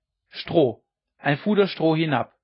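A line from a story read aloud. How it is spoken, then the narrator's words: Calling upward. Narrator (German): rief er denen droben zu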